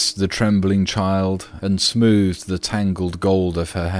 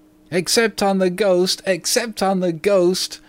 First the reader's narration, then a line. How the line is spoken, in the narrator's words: shrieked the twins